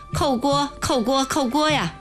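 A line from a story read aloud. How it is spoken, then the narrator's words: Old man, incessant shouting. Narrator (Chinese): 白胡子老头，不住声的嚷嚷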